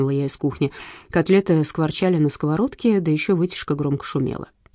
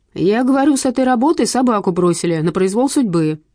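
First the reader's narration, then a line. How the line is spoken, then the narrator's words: Yelled. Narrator (Russian): заорал Василий Макарыч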